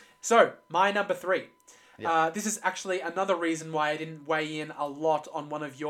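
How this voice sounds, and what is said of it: Usual voice. Nothing is said of it.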